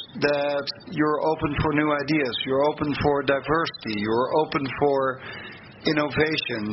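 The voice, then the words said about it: Dutch accent in English. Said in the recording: “if it occurs in the Netherlands, where you might have heard that rest of my accent, where I come from”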